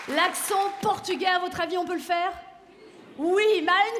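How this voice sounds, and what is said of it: Usual voice. Nothing is said of it.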